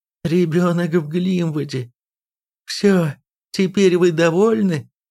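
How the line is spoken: Groaning reply. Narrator (Russian): Простонав, Ирми ответила

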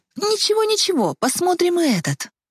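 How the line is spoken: Joyful reply. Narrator (Russian): радостно ответила Ева

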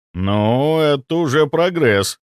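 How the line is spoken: Respectful drawl. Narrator (Russian): с уважением протянул я

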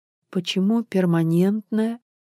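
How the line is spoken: Pitiful voice. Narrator (Russian): жалким голосом спросила Ольга Степановна

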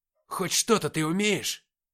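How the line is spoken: Bold sharp retort. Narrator (Russian): огрызнулся Никита, вновь проявив смелость

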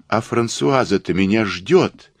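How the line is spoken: Sudden remembering exclamation. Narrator (Russian): воскликнула она, вспомнив о своих обязанностях

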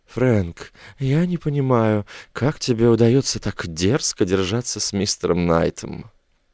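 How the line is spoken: Quiet. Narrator (Russian): Кассия сказала негромко

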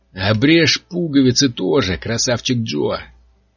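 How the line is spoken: Hoarse voice. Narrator (Russian): предложил чей-то сиплый голос

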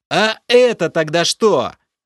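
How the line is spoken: Yelling. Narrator (Russian): Заорал я

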